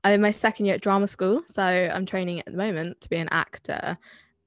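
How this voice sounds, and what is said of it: Somerset English accent. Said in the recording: “I didn't really adopt the Somerset accent until much later in life, but I wear it with pride.”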